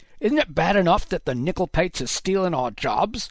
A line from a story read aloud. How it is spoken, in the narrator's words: one of the men shouted, spittle spraying Haddock's face